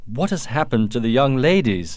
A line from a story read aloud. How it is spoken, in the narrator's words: asked Duncan impatiently